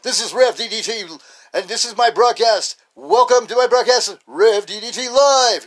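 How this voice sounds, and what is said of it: Radio DJ announcer voice. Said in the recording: “because I got a DJ voice.”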